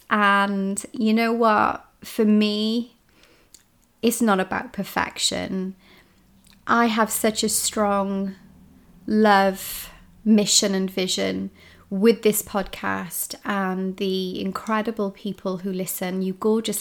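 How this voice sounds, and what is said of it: Congested, unwell-sounding voice. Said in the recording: “you can hear in my voice, right? ... So I am hot, I am hormonal, and I have hay fever”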